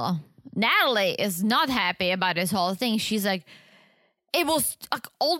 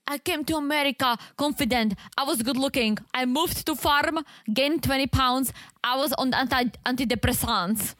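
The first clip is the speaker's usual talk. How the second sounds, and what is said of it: Put-on Eastern European accent. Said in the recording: “I hate doing this accent because I work so hard not to have the Eastern European accent”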